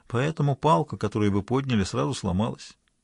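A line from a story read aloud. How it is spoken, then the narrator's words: Quiet. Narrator (Russian): негромко сказал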